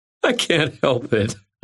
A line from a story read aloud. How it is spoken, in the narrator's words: I said, wiping at tears of laughter